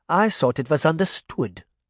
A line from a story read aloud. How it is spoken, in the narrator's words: Granny Relda said calmly